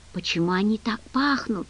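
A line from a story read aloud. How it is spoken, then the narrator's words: Whisper. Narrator (Russian): прошептал он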